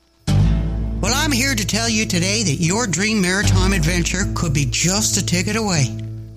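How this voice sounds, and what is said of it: Canadian Maritime accent. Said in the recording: “my maritime accent”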